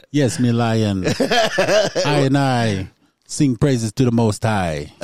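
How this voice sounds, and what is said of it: Put-on Jamaican accent. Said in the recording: “I'd rather have a Jamaican accent ... you did pretty good on that”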